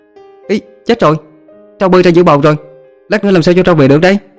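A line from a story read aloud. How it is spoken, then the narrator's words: Sudden child's shout. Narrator (Vietnamese): Bất chợt bé nhỏ hét lên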